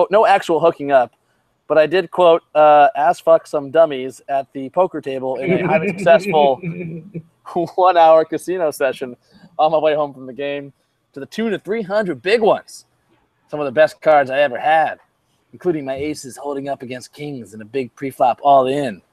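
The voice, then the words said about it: Imitates another person's voice. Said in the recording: “my best Sticky impression.”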